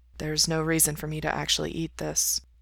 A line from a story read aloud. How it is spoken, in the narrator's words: Mikey says softly